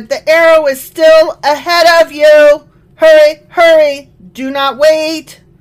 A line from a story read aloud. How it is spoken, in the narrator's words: Jonathan shouted